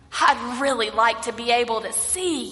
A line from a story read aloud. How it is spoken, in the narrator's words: says